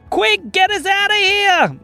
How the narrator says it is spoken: yelled Luca and Marlo

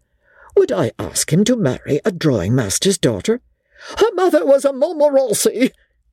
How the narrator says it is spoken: cried the old lady

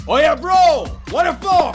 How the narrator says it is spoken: A man shouting

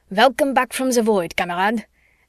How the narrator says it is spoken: Maud chuckled proudly, and Eric shouted

